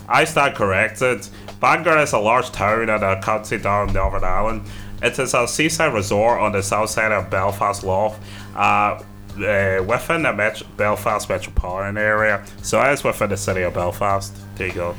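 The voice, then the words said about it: Intermittent put-on Irish accent. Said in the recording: “putting on an Irish accent? ... I'm going to put on an Irish accent ... That was a good accent. Intermittent, but good.”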